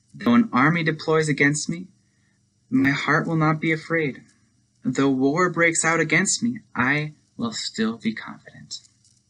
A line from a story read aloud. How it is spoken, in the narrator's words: David exclaims